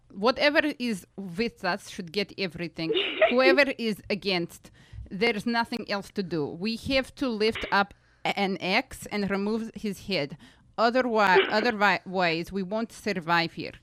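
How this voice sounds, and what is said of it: Put-on Russian-style accent. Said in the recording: “that accent. I'm sorry. I'm just like, your accent was really cool ... I was teleported to Brighton Beach”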